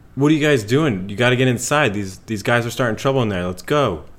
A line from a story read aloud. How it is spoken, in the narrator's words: yelling